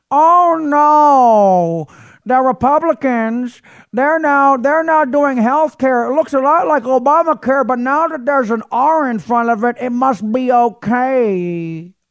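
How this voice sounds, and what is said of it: Put-on movie character voice. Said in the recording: “do my pinky voice from Running Scared”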